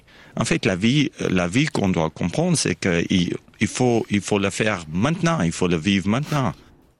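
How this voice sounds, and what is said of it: South African English accent, Vaud tinge. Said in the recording (French): “il avait un petit point d'accent vaudois au milieu de son accent. ... Anglais d'Afrique du Sud.”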